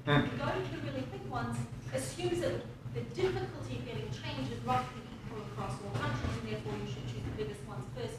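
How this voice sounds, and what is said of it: Accent from a smaller country. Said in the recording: “you can tell by my accent that I'm from one”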